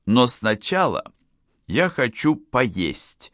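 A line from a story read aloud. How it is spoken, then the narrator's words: Plain. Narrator (Russian): сказала Катрина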